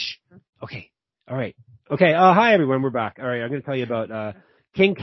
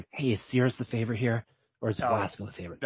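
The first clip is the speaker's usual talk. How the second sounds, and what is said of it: Whispering. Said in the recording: “I'm going to whisper to Dan”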